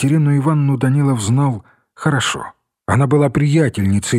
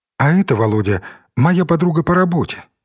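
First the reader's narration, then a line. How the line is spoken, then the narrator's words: Plain. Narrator (Russian): сказала Екатерина Ивановна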